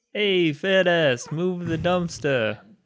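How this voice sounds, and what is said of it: Put-on Brooklyn accent. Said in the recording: “I gave you a Brooklyn accent”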